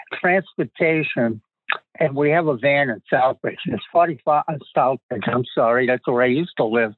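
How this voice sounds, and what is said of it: Massachusetts accent. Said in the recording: “You can tell I'm from Massachusetts by my accent.”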